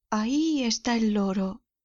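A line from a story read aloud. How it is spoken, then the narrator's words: Exclaiming. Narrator (Spanish): exclamó Scrooge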